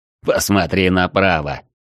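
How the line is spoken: Snide, curt. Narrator (Russian): ехидно бросил Арчибальд

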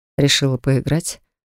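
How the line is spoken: Whispering in ear. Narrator (Russian): шепчет Риф на ухо

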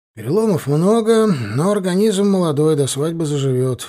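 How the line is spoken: Tired. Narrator (Russian): устало сказал он

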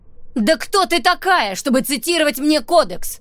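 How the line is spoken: Shouting. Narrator (Russian): закричала Эмбер

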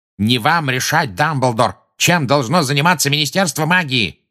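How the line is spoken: Enraged barking. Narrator (Russian): рявкнул Фадж, теперь уже пурпурный

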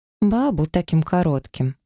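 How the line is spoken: Sorrowful sigh. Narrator (Russian): горестно вздохнула кузина Ливи

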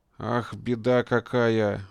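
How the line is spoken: Forced, feigned sympathy. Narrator (Russian): выдавил из себя Опалов, стараясь вплести в голос нотки искренности и сочувствия

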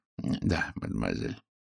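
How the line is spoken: Soft. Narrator (Russian): мягко ответил Пуаро

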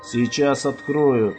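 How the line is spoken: Calm. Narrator (Russian): он спокойно произнес

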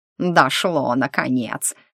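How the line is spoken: Mocking. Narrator (Russian): насмешливо произнес фамильяр

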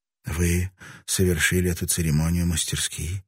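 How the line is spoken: Whispered. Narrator (Russian): прошептала она

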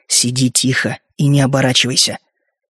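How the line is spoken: Whisper in Halfling language. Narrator (Russian): я прошептал на языке халфлингов

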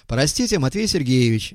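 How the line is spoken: Cheerful, smiling. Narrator (Russian): весело улыбаясь, сказал он

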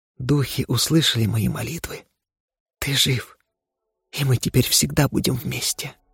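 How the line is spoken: Quiet, sobbing. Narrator (Russian): она всхлипнула и тихо произнесла

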